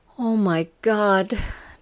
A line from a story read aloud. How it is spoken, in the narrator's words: Jane gasped